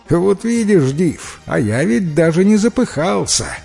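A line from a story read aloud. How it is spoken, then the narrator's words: Laughing. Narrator (Russian): смеясь, сказал парень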